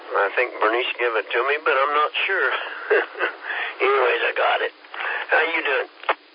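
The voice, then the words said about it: Hoarse voice from a cold. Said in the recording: “I sound a little hoarse. I got a cold, of course.”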